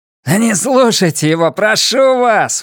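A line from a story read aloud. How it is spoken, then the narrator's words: Shouted. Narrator (Russian): выкрикнул Джордж Телфорд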